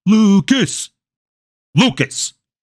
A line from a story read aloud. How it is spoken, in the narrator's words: His history teacher's very real yell